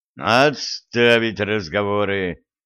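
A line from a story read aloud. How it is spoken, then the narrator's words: Growling. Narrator (Russian): рыкнул Виталик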